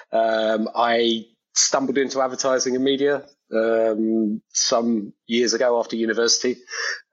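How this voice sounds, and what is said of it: British accent. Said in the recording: “I'm British, as some of your viewers and listeners will be able to tell from the accent.”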